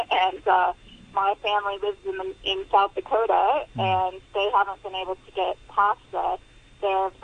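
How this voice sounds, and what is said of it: American accent. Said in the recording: “I'm obviously from there originally. You can tell by my accent.”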